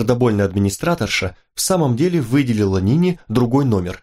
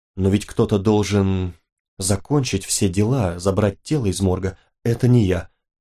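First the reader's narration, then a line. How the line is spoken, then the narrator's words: Whispering. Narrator (Russian): прошептала Нина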